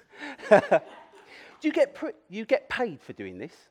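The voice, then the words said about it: Poorly done imitated accent. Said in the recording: “poor accent”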